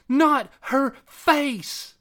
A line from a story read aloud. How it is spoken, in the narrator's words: Tiffany screamed